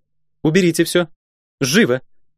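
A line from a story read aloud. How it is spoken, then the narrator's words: Sharp commanding shout. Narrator (Russian): прикрикнула сестра сокола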